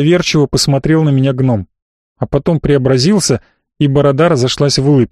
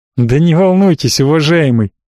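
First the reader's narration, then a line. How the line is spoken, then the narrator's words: Still laughing. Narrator (Russian): все еще смеясь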